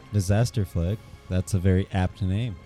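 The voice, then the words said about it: Sarcastic tone. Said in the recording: “Are you being sarcastic?”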